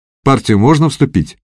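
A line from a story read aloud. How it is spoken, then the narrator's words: Cheerful question. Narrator (Russian): бодро спросил Костя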